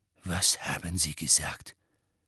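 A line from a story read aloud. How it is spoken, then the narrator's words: Quiet question. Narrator (German): fragte Snape leise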